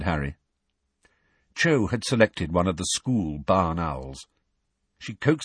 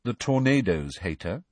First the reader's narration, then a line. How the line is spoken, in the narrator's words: said Cho, rather coolly